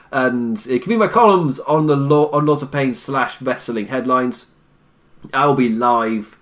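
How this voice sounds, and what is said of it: Raw, strained voice. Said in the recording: “My voice is so raw. My throat hurts.”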